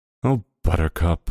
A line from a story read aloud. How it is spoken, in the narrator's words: Barbara sighed